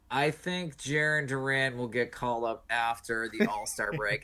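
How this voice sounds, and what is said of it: Monotone, nasally voice impression. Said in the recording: “I'm going to try to do Terry's voice. My impression of Terry... Just be very monotone and nasally.”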